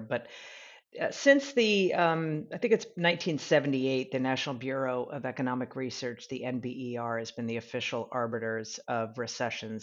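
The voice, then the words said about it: Deep, under-the-weather voice. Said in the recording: “I apologize for my deep voice, a little under the weather.”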